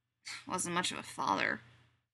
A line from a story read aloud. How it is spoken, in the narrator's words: she mutters